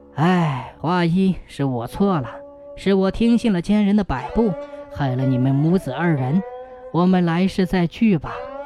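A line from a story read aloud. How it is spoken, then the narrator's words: Long sigh. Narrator (Chinese): 梁生长叹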